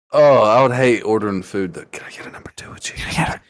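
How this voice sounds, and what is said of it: Whispering. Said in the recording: “I can't hear you. ... Why the fuck you whispering?”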